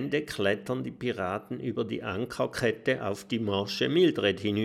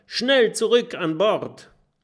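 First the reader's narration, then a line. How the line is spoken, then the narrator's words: Calling out. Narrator (German): ruft Norbert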